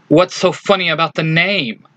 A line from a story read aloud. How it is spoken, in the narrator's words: Leafa snaps